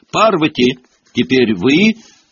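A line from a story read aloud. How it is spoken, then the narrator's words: Shouted. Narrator (Russian): крикнул профессор Люпин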